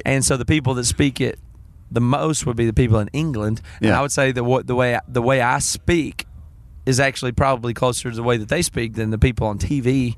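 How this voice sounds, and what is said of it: Noticeable regional American accent. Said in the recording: “Your accent that you're not going to give up”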